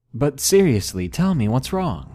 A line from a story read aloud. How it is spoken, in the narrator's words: I awkwardly laughed and said nervously